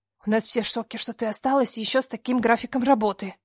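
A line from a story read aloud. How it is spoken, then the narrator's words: Lowered to a whisper. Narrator (Russian): понизив голос до шепота, сообщила Катя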